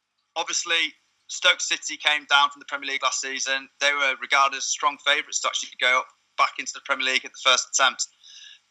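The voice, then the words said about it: Yorkshire English accent. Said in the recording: “As you can probably tell from my accent, I'm from the area. I'm a Yorkshire boy.”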